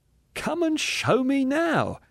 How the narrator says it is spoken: said the other with laughter in his voice

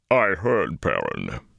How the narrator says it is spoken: boomed sadly

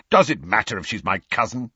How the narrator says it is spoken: snapped Sirius

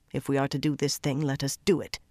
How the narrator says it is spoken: she muttered, stiff with embarrassment

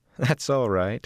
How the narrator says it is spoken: she laughed

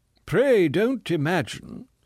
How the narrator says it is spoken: said the man in a very dignified voice

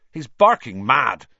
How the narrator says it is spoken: said Seamus Finnegan angrily

